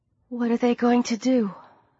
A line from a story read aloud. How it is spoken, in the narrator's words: Sarah asked in a small voice